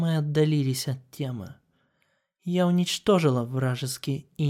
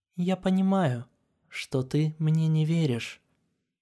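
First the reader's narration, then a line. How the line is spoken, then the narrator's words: Completely calm. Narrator (Russian): абсолютно спокойно сказала Селестия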